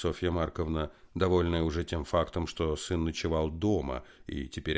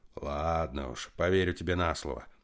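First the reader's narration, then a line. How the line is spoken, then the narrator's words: Son's grumble. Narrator (Russian): проворчал сын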